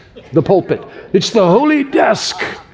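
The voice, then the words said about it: Put-on Spurgeon preacher accent. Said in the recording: “That's my best Spurgeon accent.”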